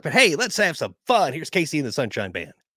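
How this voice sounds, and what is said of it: Announcer-style radio voice. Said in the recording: “I can still tell you did radio with your radio voice”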